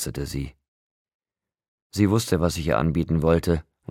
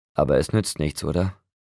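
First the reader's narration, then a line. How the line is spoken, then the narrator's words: Sighing. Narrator (German): Sie seufzte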